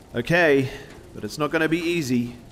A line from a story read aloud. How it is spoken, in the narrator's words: yelled Brian